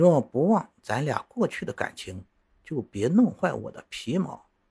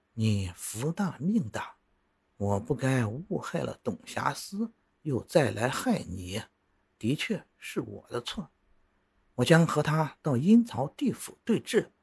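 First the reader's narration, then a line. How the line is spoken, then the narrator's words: Sighing. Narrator (Chinese): 那女子叹了口气，说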